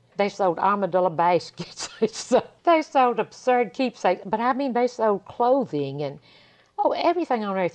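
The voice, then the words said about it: Old-timey Southern accent. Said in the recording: “I love that accent. That's hilarious. It's kind of like Southern with old-timey.”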